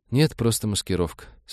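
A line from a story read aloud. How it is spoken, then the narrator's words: Calm reply. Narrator (Russian): спокойно ответила та, будто ничего особенного не произошло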